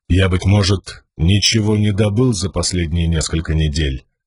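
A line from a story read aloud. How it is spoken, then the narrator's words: Dry. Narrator (Russian): сухо произнес Далинар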